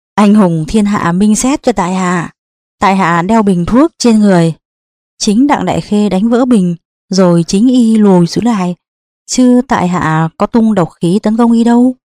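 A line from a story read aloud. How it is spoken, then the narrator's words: Loud laughter. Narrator (Vietnamese): Đỗ Xích Thập cười lớn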